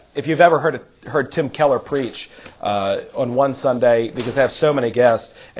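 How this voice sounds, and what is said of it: Strained, hoarse voice. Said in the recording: “I'm a little under the weather, so I'm not able to project as I normally am ... my voice is a little bit stretched ... the tail end of this is going to be more screeching”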